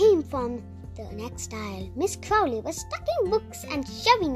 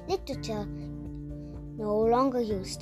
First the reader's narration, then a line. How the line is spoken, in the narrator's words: she muttered